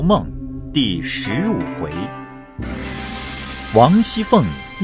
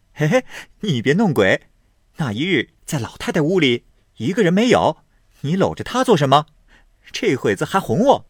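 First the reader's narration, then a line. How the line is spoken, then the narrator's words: Laughing. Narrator (Chinese): 宝玉笑道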